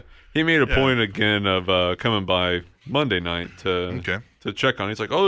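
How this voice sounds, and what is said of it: Usual voice. Nothing is said of it.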